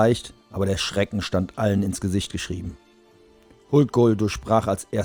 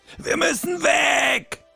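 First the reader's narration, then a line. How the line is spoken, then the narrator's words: Roaring. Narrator (German): brüllte Kai Weiß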